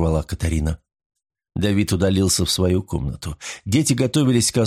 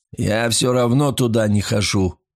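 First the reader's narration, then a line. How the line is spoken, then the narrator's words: Grumbling. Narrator (Russian): проворчал Давид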